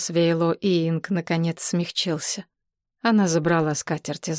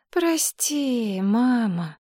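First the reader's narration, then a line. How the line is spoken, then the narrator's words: Sheepish sigh. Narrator (Russian): вздохнула Мэйлин, зная, что ее маленькую ложь раскрыли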